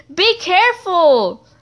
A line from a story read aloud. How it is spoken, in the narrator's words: Arrow yelled, but in a soft and nice and not alarming voice